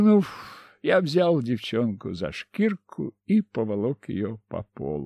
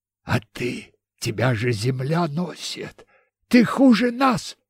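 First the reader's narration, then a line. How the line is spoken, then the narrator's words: Hoarse young woman. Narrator (Russian): просипела девушка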